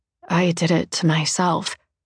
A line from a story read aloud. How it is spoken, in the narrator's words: Marianne says, her voice very quiet